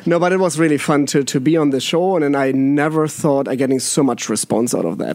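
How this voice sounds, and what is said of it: German accent. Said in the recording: “German accent”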